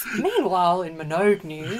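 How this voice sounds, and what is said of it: Mock newsreader voice. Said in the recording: “I should talk like this in a newsreader voice.”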